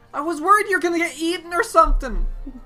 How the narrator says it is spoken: Teon yells out

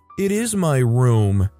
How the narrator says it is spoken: in a pout and whines

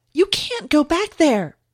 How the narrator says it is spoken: Kathy yelled

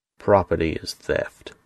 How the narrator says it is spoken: sneered

